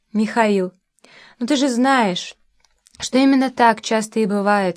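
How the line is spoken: Changed, sad voice. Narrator (Russian): сказал Леня совершенно другим, просто грустным, безукоризным голосом

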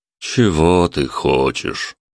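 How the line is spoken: Weary. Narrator (Russian): устало произнес Юра

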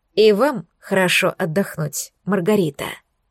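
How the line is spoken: Soft. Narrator (Russian): мягко пожелал князь

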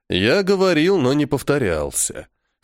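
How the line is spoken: Snort. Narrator (Russian): хмыкнул Вангур

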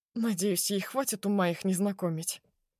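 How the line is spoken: Quiet reply. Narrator (Russian): тихо отзывается Захар

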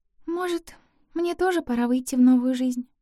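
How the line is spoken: Quiet. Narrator (Russian): тихо сказала

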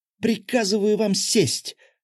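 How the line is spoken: Full-lung yell. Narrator (Russian): заорала она во всю силу легких

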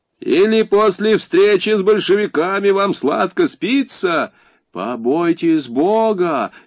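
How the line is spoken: Offended exclamation. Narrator (Russian): с обидой воскликнула игуменья

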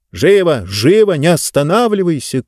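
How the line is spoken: Shouted. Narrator (Russian): крикнула Инесса

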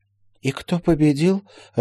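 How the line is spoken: Confused question. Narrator (Russian): растерянно спросила Полина

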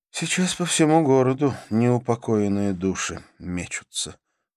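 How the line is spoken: Sighing. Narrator (Russian): вздохнула Карла

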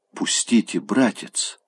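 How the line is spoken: Shy whisper. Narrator (Russian): шепотом, будто стыдливо сказала она

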